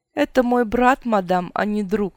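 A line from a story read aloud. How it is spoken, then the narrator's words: Laughing. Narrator (Russian): рассмеялся он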